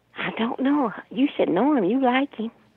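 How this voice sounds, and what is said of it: Whispering. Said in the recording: “Why are you whispering, weirdo? ... Why are you whispering? ... Because you were whispering.”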